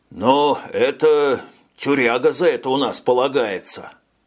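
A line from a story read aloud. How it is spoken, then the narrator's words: Mock-mournful tone. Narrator (Russian): Нарочито траурным тоном сообщил лейтенант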